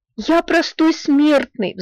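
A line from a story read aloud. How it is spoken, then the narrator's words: Pleading. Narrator (Russian): взмолился Скрудж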